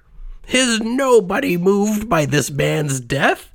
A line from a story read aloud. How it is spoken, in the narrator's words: he begged